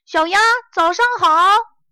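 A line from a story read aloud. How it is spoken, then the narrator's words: Loud call. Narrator (Chinese): 弗洛格大声喊道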